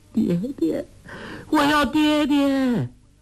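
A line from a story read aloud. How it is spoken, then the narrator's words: Crying out in tears. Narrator (Chinese): 黄蓉却只是哭叫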